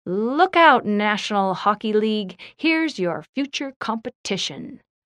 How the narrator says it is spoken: Jeremy called out

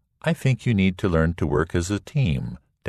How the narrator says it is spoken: Dad said

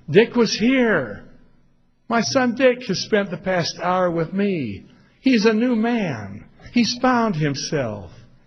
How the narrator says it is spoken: she exclaimed

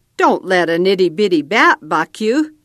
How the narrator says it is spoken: Red cackled

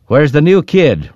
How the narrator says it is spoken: Rhett called out

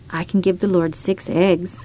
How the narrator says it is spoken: I muttered to myself

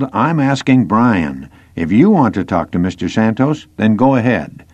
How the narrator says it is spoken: grumbled

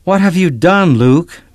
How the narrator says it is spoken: Matthew yelled

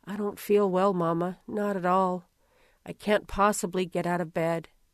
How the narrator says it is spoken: Tamar barely stirred beside me as she mumbled

